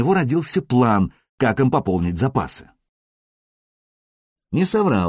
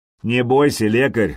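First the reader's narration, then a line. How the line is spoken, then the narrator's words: Mocking. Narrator (Russian): насмешливо произнес Сергей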